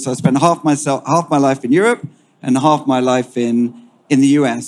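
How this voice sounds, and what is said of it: British English accent. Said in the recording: “You can detect my accent, British by origin.”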